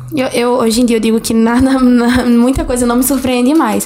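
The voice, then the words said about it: Strong northeastern Brazilian accent. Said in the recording (Portuguese): “amei o sotaque dela ... é, de Nordeste, Alagoas ... eu não sabia que era tão forte e dava para perceber”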